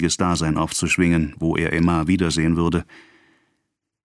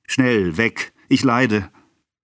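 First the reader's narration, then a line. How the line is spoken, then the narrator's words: Called out. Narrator (German): rief Monsieur Bovary und warf zornig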